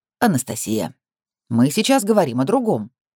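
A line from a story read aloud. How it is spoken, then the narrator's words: Gentle reminder. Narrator (Russian): мягко напоминает Одиссей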